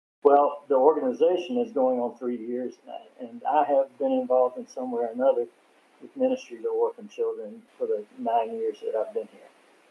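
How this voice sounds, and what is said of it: American accent. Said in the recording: “we're both Americans. We've got that American accent.”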